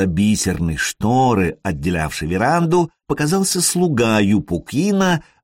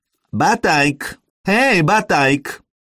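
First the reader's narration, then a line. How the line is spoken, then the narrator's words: Shrill call. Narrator (Russian): позвал визгливым голосом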